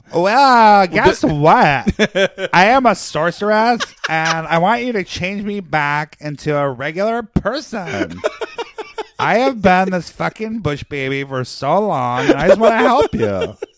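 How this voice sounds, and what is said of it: Put-on lady character voice. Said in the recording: “it talks just like the lady voice that you do ... when you do your lady voice ... You sound like Sarah Maddox when you talk like that.”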